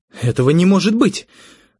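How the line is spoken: Exclaimed. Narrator (Russian): воскликнула Светлана

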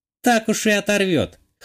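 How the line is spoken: Snorting. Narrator (Russian): хмыкнула Вика

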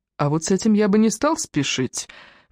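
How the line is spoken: Gentle objection. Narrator (Russian): мягко возразил Фрэнк

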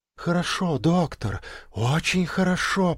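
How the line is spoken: Whisper in the ear. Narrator (Russian): прошептала она ему на ухо

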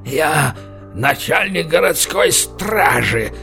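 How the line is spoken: Wheezing wounded man. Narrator (Russian): хрипел лежащий в луже крови барон

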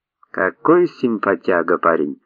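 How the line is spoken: Joyful. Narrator (Russian): радостно сказал Вася китаец

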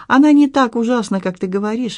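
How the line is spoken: Cheerful. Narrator (Russian): весело добавил он

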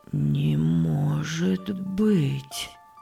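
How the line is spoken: Objecting, heavy sigh. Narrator (Russian): возразил Иосиф и тяжело вздохнул

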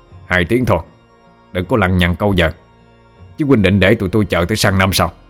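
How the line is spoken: Harsh, clipped old man. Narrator (Vietnamese): lão A Bân lại ngắt lời nó, gằn giọng nói

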